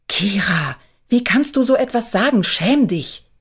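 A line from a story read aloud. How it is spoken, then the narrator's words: Hissing. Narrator (German): zischte ihre Mutter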